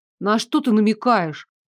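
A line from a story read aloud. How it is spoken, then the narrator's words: Sharp question. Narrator (Russian): пожалуй, даже слишком резко спросила я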